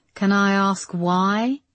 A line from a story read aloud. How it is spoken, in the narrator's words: he said, his voice tinny on the end of the line